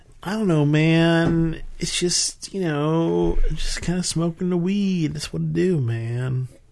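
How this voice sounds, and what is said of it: Put-on stoner accent. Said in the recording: “you give me a better stoner accent ... it's not as stereotypical. You're adding a little bit of a regional tone”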